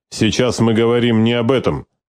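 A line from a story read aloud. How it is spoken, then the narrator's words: Sharp rebuke. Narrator (Russian): резко осадил ее Власов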